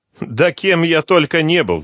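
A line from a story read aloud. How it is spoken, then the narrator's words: Laughing. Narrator (Russian): засмеялся Захар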